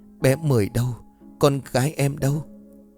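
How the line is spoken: Trembling. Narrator (Vietnamese): Cô liền run rẩy

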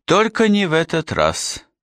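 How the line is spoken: Sighing. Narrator (Russian): вздохнул Гегурра, казалось, не слушавший своего гостя

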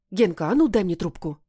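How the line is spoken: Irritated bark. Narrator (Russian): раздраженно гаркает Оля

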